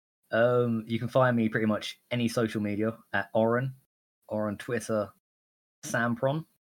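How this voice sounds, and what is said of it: British accent. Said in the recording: “I'm from the UK. You cannot tell by my annoying accent.”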